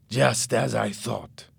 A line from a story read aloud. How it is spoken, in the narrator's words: said angrily